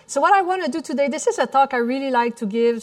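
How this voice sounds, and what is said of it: Slight French Canadian accent. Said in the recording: “the little French accent that you hear in the back, I'm from Montreal, Canada”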